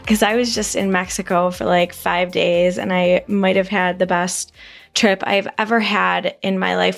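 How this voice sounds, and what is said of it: Slightly worn, hoarse party voice. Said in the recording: “I do have a little bit of party girl voice”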